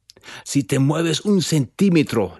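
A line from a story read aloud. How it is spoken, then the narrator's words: Growled. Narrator (Spanish): le gruñó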